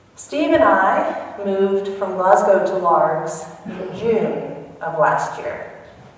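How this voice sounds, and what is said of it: Southern American accent. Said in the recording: “As you can probably tell by my accent, I grew up in South Carolina.”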